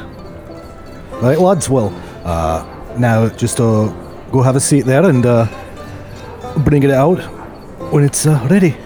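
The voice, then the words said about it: Scottish Edinburgh accent. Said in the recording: “it's always nice to meet a fella from the Isles ... Am I detecting a little Edinburgh in your accent there”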